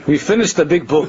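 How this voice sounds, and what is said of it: Very heavy accent. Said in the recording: “in the heaviest accent”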